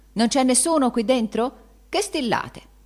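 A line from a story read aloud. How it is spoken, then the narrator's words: Exclaimed. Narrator (Italian): esclamando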